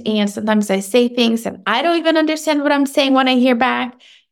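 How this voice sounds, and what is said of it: Speaker's own accent. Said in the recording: “I have an accent.”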